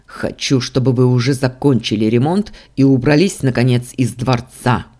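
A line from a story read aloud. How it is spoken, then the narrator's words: Angry bark. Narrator (Russian): со злостью рявкнул я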